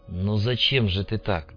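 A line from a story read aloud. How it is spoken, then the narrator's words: Soft. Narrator (Russian): мягко произнесла Наталья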